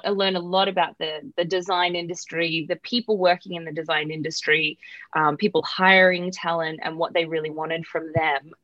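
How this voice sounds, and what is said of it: Australian accent. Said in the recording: “I'm Australian, if you can tell by my voice.”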